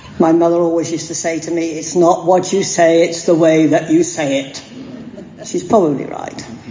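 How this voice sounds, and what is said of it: English accent, direct, different pitch. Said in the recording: “I'm a Pom, and so my accent or way of talking comes out with much more direct and with a different pitch than the light tone of my Aussie friends”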